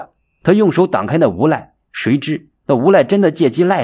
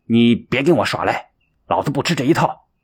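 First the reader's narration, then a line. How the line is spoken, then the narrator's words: Stern, harsh. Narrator (Chinese): 厉声的说道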